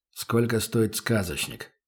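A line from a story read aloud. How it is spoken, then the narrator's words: Muttering. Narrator (Russian): пробормотал Добрынин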